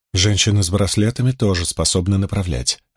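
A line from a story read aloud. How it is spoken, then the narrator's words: Quiet. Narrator (Russian): ответила девушка также тихо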